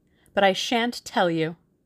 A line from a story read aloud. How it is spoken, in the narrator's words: said Tuppence triumphantly